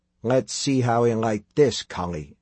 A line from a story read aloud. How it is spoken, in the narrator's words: Tim murmured